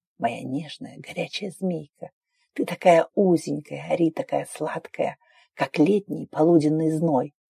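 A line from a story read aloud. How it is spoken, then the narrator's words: Halting mumble. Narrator (Russian): Сбивчивое бормотание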